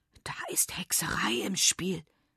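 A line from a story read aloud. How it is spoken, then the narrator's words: Whisper. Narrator (German): flüstert Lara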